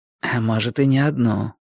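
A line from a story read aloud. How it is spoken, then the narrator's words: Whispered into ear. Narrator (Russian): шепнул мне на ухо Борис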